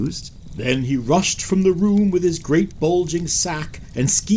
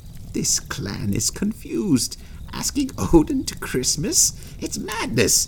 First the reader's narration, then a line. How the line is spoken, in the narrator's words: And he quietly muttered